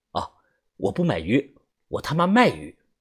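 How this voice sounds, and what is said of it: Quiet, hushed voice. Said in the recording (Chinese): “小声的对他说”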